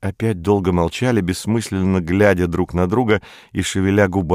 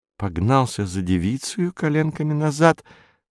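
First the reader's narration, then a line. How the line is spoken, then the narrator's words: Thoughtful. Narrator (Russian): сказала Стелла задумчиво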